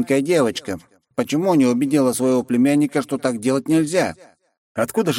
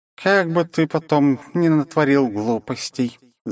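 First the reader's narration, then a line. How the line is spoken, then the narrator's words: Sad sigh, old woman. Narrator (Russian): с грустью вздохнула бабуля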